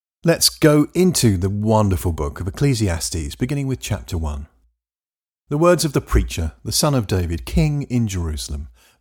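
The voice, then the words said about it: English accent. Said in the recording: “coming to you in an English accent”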